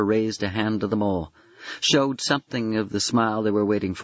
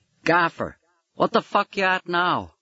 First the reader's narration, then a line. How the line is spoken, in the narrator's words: One yelling down at him